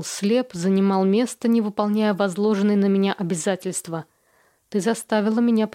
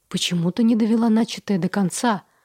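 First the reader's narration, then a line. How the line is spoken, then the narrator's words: Heated whisper. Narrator (Russian): Разгоряченным шепотом произнес он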